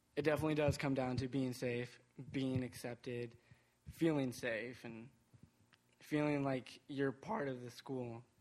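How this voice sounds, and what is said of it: Trembling, nervous voice. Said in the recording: “I'm not a very good speaker, so my voice is trembling”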